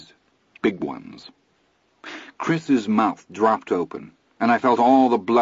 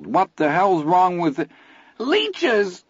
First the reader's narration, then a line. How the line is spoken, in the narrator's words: Teddy screamed